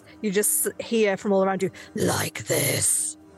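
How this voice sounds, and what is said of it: Loud, scary voice. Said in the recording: “a loud, scary voice”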